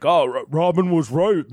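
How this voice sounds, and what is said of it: Speaking as if mouth is full. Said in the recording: “my impression of me with my mouth full”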